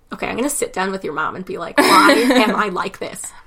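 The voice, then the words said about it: Nasal Michigan voice, throaty. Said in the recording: “it is nasally, but that's a Michigan thing ... It's a weird mix of back and nasal”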